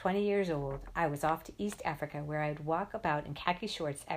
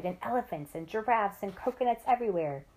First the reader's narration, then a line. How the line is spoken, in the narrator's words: cried